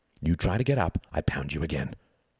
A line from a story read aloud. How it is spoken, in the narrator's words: hissed Tom